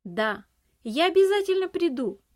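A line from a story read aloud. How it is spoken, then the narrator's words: Shouted while running. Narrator (Russian): Уже на бегу крикнул он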